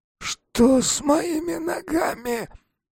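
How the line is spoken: Hoarse moan. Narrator (Russian): сипло застонал он

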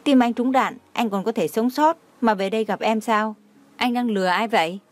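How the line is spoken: Angry after a loud cry. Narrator (Vietnamese): Đường Khả Hinh la to một tiếng, sau đó lại thu hồi sắc mặt, tức giận nói

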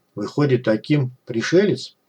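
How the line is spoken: Quiet laugh. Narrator (Russian): Лавров тихо рассмеялся

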